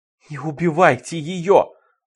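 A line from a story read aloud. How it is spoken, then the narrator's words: Pleading. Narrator (Russian): взмолился он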